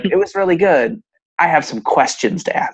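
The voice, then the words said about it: Imitates another person's voice. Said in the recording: “That's my imitation of my mom voice.”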